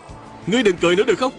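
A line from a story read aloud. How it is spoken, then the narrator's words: Young man's moved shout. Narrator (Vietnamese): Một đạo nhân còn trẻ bỗng động lòng bèn hét lên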